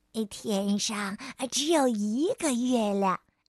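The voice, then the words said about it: Quiet, soft speech. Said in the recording (Chinese): “小声地说”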